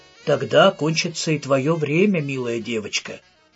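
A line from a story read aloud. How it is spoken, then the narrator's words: Plain. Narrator (Russian): ответил мастер хора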